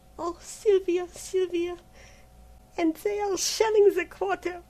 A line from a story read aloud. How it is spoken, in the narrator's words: Colette moaned